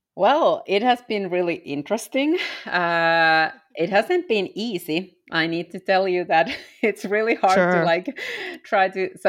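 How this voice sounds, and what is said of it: Non-American accent. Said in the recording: “your accent is not American, you are not American”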